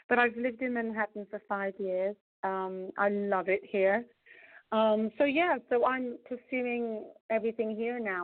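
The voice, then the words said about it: English accent. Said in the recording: “I hear an accent. You originally from? ... I'm from England, actually.”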